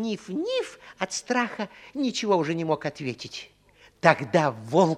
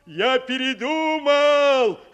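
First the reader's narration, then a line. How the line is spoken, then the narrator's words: Loud, carrying. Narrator (Russian): сказал так громко, чтобы его услышали в домике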